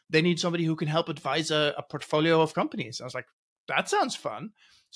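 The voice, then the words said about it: Mixed international accent. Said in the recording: “I hear an accent there. ... Are you Aussie? ... I'm Dutch. I grew up Norway. ... 15 years in the UK”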